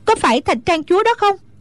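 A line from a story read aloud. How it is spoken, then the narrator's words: Shouted. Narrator (Vietnamese): Hoa Vạn Tử la lên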